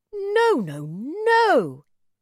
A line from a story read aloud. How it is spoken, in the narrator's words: cried